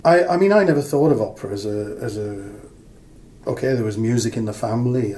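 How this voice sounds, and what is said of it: Regional English accent. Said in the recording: “I can catch the accent still.”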